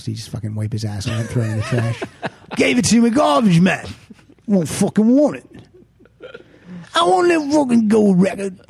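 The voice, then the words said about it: Bad put-on British punk accent. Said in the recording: “the accent is getting horrible”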